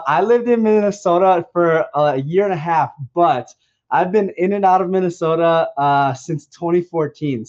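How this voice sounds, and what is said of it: Strong Minnesota accent. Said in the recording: “how long did you live in Minnesota? ... your accent is so powerful and I love it”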